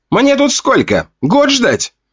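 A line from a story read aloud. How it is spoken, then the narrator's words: Voice from below. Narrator (Russian): Раздалось снизу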